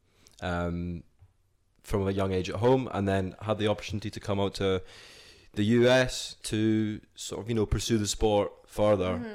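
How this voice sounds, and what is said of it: Speaks with a non-American accent. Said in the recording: “Are you going to lose your accent? ... I'm not losing it, am I?”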